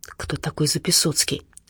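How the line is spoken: Admiring whispered question. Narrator (Russian): восхищенным шепотом спросила Надя у Димы

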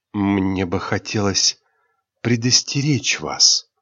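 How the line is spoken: Sudden whisper. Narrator (Russian): неожиданно прошептала кронпринцесса

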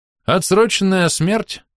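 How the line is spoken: Sighing. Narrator (Russian): вздохнул я

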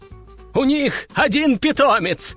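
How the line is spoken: Loud laughter. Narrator (Russian): расхохотался управляющий

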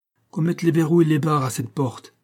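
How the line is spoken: Voice trembling with anger. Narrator (French): dit le castellan, d'une voix tremblante de colère

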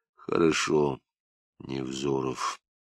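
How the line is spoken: Quiet interruption. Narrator (Russian): негромко перебил Лапшин

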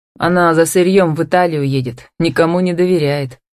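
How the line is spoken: Snorting. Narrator (Russian): хмыкнул Демьяновский

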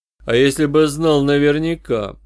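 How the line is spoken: Ingratiating, insinuating. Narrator (Russian): вкрадчиво продолжал я

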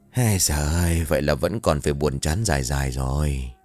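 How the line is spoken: Sighing mutter. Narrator (Vietnamese): Anh liền thở dài lầm bầm

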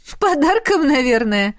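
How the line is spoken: Chuckle. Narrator (Russian): хохотнула она

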